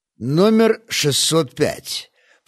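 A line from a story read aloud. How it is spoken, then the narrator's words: Grumbled. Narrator (Russian): пробурчал Чистюля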